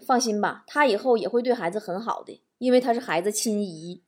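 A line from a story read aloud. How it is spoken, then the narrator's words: Flat, indifferent. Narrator (Chinese): 哥们儿淡淡的说了一句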